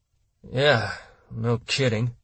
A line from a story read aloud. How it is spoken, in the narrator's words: Maycomber said through gritted teeth